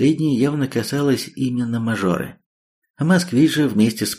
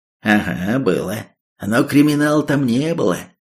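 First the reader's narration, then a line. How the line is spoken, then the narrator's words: Displeased. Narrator (Russian): рейдер отозвался недовольным голосом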